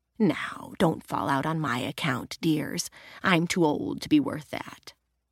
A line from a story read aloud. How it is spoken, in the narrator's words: Estelle whispered